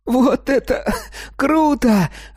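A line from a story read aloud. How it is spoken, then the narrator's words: Laughing through cough. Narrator (Russian): рассмеялся сквозь кашель Колька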